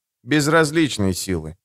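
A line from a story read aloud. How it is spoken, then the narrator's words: Correcting with heavy sigh. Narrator (Russian): поправил его Лето, тяжко вздохнув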